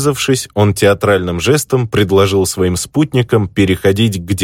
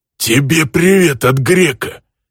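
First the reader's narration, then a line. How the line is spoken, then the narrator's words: Wheezed, stranger. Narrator (Russian): Просипел незнакомец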